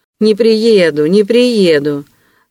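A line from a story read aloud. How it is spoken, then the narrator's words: Smug laughter. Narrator (Russian): самодовольно смеялся Вельчининов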